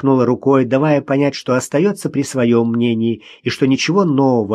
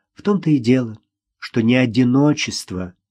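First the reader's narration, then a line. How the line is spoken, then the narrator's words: Sad, smiling. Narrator (Russian): грустно улыбнулась Ирина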